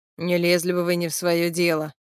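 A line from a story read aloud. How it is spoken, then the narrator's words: Continuous grumbling. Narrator (Russian): всю дорогу ворчал Гоша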